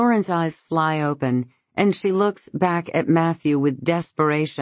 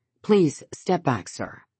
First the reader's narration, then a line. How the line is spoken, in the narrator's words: the sergeant says